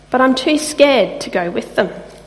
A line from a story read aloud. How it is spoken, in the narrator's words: Velvet Deer sighs